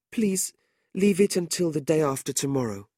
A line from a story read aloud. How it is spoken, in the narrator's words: Madeline said anxiously